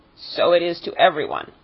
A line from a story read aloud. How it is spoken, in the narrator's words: said the creature sharply